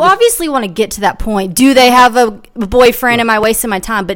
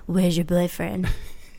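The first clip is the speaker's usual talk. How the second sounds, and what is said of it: Creepy put-on voice. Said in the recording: “That's my creepy voice.”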